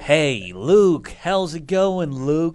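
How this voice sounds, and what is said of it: Put-on American accent. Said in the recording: “That's my American accent.”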